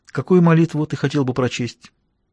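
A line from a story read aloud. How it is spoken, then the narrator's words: Whispered. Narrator (Russian): Я прошептал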